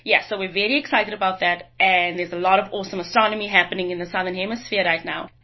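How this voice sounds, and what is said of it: South African or Australian accent. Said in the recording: “if you've not picked up from our accent, we're both from the southern hemisphere, from South Africa and Australia”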